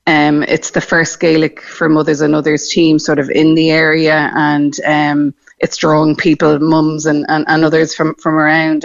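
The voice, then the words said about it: Irish accent, not Cork. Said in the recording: “As you may have guessed from my accent, not from Cork originally. ... We moved down from Dublin”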